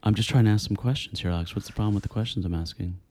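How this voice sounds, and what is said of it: Put-on radio interviewer voice. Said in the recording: “acting like a radio interviewer ... That voice, man. It's really annoying. ... In my regular voice.”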